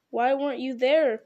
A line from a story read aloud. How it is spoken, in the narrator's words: cried Frodo